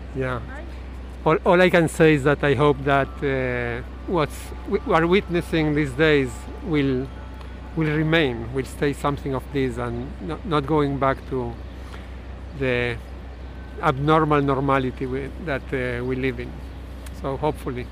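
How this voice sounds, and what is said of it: Argentine-accented English. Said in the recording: “Where are you from? ... I'm from Argentina. ... I couldn't tell. ... Yeah, I know. My accent.”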